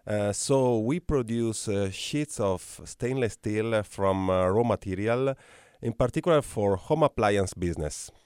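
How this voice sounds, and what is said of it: Italian-accented English. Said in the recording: “I could listen to your accent all day ... I am coming from Italy, but I have spent my last 8 years in Mexico”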